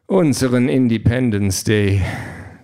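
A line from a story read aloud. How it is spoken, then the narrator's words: Sigh. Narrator (German): John seufzt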